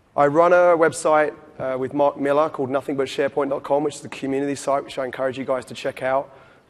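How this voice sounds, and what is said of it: London accent with slight Australian twang. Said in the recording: “I'm actually from London originally. I did have a stint in Australia for 8 years in Perth, so a little bit of a twang there.”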